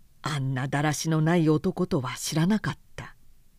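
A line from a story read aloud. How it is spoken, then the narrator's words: Plain. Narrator (Japanese): と言った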